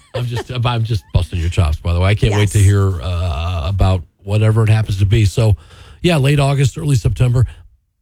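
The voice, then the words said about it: Hoarse, strained voice. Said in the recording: “Losing my voice this morning. ... Just too much talking.”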